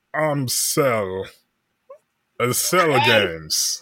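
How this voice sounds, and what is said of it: Impression of the villain Cell. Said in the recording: “your Cell impression”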